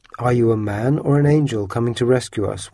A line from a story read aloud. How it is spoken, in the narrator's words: asked